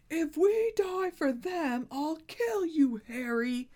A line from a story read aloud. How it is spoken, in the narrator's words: roared Ron's voice